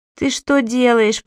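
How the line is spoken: Moaning. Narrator (Russian): простонал Сири

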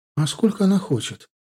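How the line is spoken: Uncertain question. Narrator (Russian): поинтересовалась Галия неуверенно

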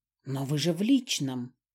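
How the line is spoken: Quiet. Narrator (Russian): тихо сказал он

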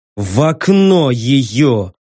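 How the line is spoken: Through gritted teeth. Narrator (Russian): сквозь зубы процедил

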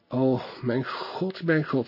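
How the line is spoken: Fearful mutter, chattering teeth. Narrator (Dutch): mompelde de koningin, wier tanden van angst klapperden

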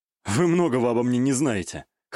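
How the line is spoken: Smirking snort. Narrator (Russian): хмыкнул

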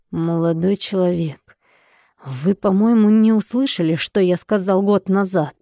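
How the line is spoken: Threatening. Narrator (Russian): бросил Катин отец угрожающим голосом

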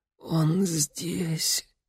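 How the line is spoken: Hoarse exhale. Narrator (Russian): хрипло выдохнула Мария

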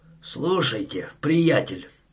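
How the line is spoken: Hoarse strained voice. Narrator (Russian): сказал он своим сиплым, сорванным голосом

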